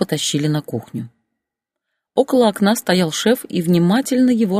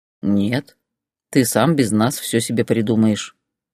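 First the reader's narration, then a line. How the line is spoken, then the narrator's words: Calm. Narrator (Russian): спокойно ответил босс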